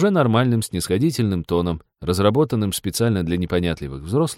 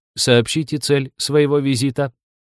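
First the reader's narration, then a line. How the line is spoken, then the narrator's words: Metallic demanding voice. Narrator (Russian): Лиза металлическим голосом потребовала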